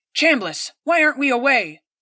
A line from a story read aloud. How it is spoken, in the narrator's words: the captain barked